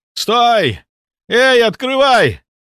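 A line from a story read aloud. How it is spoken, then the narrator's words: Exhausted desperate shout. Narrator (Russian): закричал Тор, выкладываясь из последних сил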